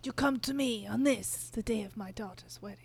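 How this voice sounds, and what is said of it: Imitates another person's voice. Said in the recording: “That was very good. ... that was a good impression.”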